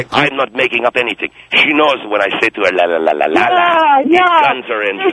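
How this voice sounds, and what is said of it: Funny-sounding foreign accent. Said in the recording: “that funny accent ... my accent is phony”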